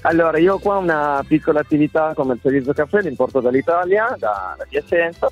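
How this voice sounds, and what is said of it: Italian with slight acquired Spanish accent. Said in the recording (Italian): “hai acquisito un attimo di accento ... Si sente proprio. Si sente tutto.”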